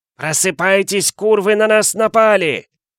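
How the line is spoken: Yelling. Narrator (Russian): Заорал

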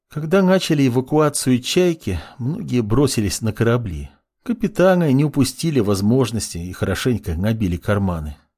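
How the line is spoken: Sad voice. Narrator (Russian): грустно произнесла Лина

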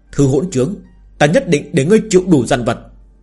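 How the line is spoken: Increasingly angry speech. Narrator (Vietnamese): Thương Khuynh Thành càng tức giận nói

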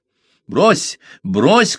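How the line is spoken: Shouting. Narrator (Russian): кричал Парсел

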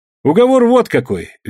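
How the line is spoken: Cheerful. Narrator (Russian): весело сказал Егор

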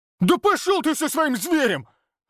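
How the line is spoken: Barked. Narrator (Russian): рявкнул Олег

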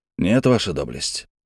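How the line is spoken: Quiet. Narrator (Russian): тихо проговорил я

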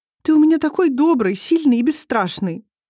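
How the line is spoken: Whimpering. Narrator (Russian): прохныкала она

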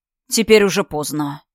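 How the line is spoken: Gloomy pronouncement. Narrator (Russian): изрек он мрачно

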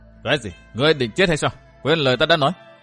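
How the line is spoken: Cold. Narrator (Vietnamese): Vu Tư Minh lạnh lùng nói

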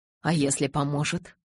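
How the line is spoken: Whispered. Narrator (Russian): шепнул он

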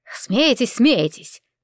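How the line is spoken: Good-natured grumbling. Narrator (Russian): добродушно ворчала Витарина

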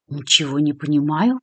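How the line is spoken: Embarrassed mumble. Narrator (Russian): пробормотала Кристина, явно смущенная таким внезапным ответом своей знакомой

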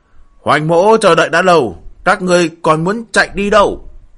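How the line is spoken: Magically projected loud shout. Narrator (Vietnamese): tiếng thanh âm Hoành Vô Đạo làm phép hét lớn

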